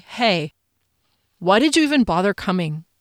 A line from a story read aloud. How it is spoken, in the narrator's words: His tone was so cold